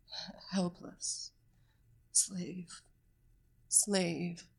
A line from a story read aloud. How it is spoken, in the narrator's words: Kane huskily whispered